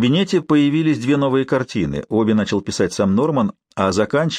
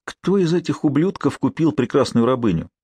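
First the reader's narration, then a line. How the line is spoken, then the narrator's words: Heavy sigh, question. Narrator (Russian): тяжело вздохнул и спросил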